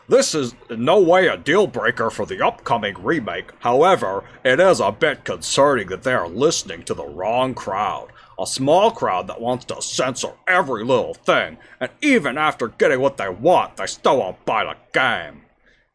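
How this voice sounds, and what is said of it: Slick, greasy nerd voice. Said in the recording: “It just sounds like you just kind of lubed up your throat by just like putting a stick of butter down your trachea. ... put on a nerd voice,”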